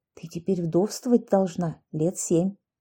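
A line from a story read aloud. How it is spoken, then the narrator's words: Neighbor's whisper. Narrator (Russian): соседка справа от Ани шепотом сказала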